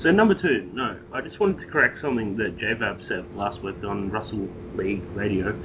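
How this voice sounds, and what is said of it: Noticeable accent in English. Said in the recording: “please don't make fun of my accent. This is the way I talk.”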